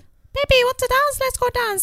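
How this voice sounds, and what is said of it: Imitates another person's voice. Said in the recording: “I'm going to do an impression of her”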